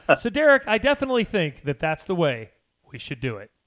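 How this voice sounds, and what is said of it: Imitates another person's pausing delivery. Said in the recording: “my impression of what a Kovac pause is”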